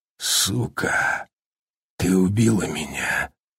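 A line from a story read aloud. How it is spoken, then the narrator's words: Hoarse. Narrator (Russian): сипло произнес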